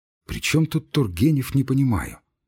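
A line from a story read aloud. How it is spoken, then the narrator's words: Quiet. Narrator (Russian): сказал тихо Грузин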